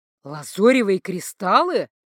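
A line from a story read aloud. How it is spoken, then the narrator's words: Exclaiming. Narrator (Russian): воскликнул начальник магического сыска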